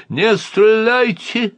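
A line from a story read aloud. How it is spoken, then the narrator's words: Desperate shout. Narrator (Russian): отчаянно закричал Андраковский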